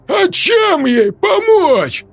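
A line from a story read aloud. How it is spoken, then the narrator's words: Tearful wail. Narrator (Russian): взвыл Сергей, и слезы покатились по его щекам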